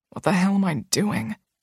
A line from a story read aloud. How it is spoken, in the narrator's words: He whispers